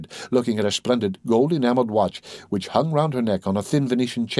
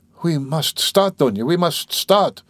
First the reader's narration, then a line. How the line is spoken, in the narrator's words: her mother cried in a flutter